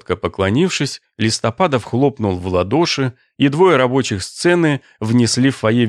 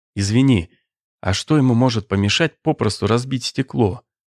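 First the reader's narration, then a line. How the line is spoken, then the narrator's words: Sad question. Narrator (Russian): грустно спросил Суржиков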